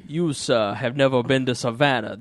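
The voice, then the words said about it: Put-on Savannah Southern accent, unconvincing. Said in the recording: “This is my Savannah accent. ... And it's not even close.”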